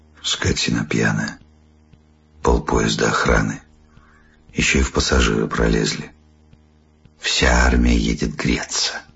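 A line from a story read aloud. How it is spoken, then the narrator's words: Quiet, after someone. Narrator (Russian): Жена тихо сказала вслед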